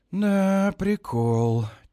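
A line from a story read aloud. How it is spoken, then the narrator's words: Drawling. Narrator (Russian): тянет Сильван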